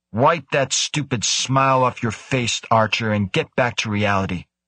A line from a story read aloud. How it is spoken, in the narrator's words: Krebs growled